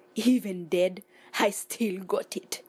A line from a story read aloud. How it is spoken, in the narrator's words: laughed Baron Saturday